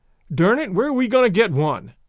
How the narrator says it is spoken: Lane blurted out

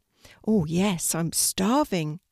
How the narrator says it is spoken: said the puppy

